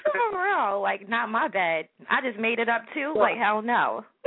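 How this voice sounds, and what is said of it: New York accent. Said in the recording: “I'm loving your accent. Where are you from? ... New York.”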